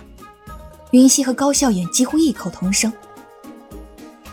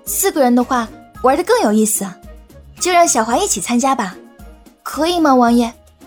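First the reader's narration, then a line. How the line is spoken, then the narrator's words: Questioning. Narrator (Chinese): 云溪在说的时候多了一分询问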